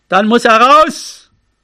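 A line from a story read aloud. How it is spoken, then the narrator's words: Shouting into the wind. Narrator (German): Er rief nach vorn in den Wind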